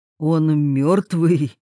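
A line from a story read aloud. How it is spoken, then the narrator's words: Trembling voice. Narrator (Russian): дрожащим голосом спросил Владимир Васильевич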